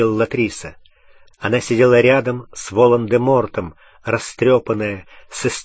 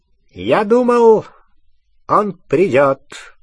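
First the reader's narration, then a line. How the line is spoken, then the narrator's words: High, clear voice. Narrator (Russian): сказал Волан-де-Морт своим высоким, ясным голосом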